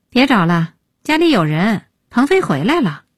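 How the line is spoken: Sighing. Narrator (Chinese): 叹

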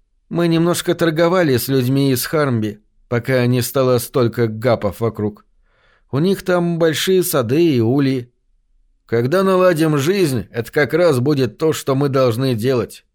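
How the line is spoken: Plain. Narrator (Russian): ответил я

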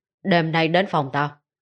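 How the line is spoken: Cold sarcastic remark. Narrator (Vietnamese): Y giọng điệu mỉa mai, lại như dùng sự mỉa mai đó để che giấu điều gì trong lòng, lạnh lùng buông một câu

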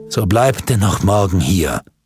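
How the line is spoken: Plain. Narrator (German): sagte Andres

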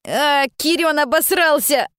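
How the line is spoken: Someone shouting. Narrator (Russian): крикнул кто-то

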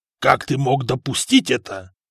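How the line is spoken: Angry growl. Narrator (Russian): прорычал герцог, злобно глядя на нового графа

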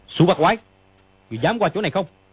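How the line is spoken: Shouted challenge. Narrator (Vietnamese): Dương Quá bèn lao sang quát

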